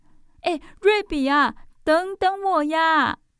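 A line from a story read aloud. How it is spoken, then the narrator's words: Breathless calling. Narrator (Chinese): 宝儿气喘吁吁的在后面叫着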